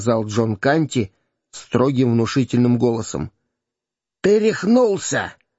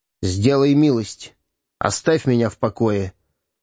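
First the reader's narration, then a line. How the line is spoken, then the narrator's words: Gloomy king. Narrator (Russian): мрачно ответил король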